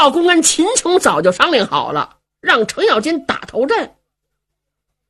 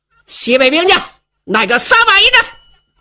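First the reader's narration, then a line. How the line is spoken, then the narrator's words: Loud shouting. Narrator (Chinese): 白苗高声喊嚷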